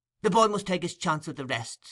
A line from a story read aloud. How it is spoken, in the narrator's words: interrupted Nancy hastily